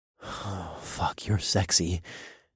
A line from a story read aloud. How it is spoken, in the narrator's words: I breathed